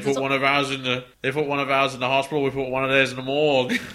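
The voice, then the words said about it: Put-on Australian accent. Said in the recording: “why do you always go Australian with their accents? ... That was still Australian. ... That's so Australian. You can't do accents.”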